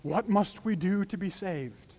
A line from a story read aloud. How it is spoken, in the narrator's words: They cried out